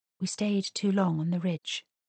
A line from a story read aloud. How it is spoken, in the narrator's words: she ventured quietly